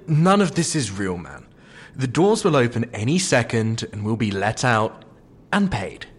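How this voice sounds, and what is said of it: British English accent. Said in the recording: “they brought you from England ... But the accent... ... It is possible for us Brits to move to the States.”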